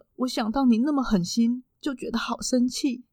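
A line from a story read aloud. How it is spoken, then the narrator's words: Uncontrollable sobbing. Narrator (Chinese): 一边搭配着是他不能自己的哭泣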